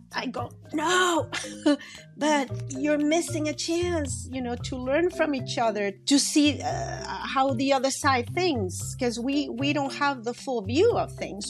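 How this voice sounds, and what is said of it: Mexican accent. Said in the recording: “The accents you're hearing, by the way, are Mexican accents.”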